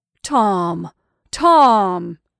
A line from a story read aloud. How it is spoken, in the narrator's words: wailed he beseechingly